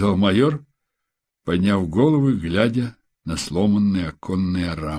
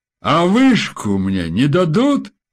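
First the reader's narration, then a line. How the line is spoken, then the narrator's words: Shouted, musing. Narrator (Russian): крикнул, словно раздумывая, Феликс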